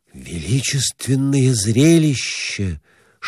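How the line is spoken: Whispering. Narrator (Russian): шептал он

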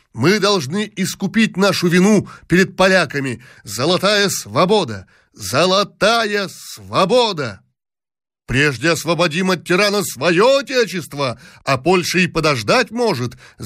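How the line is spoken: Crowd shouting. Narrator (Russian): закричали другие

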